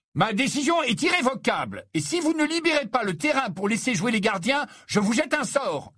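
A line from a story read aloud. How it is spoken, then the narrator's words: Yelling. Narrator (French): hurla-t-il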